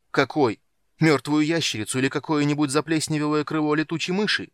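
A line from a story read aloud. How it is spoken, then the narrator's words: Almost shouting. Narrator (Russian): почти крикнул Танин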